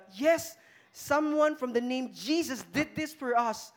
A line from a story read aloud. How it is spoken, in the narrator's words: something shouted out